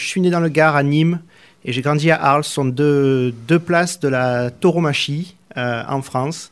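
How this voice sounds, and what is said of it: Southeastern French accent. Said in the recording (French): “l'accent de ... on est sur un accent de ce qu'on appelle du sud est de la France”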